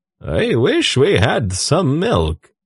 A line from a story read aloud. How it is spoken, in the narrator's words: Tzadi said in his contralto voice